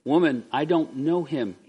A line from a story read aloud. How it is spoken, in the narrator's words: he said